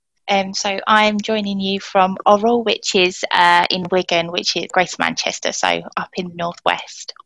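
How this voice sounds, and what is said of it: Southern English accent. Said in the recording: “my accent betrays me as a southerner”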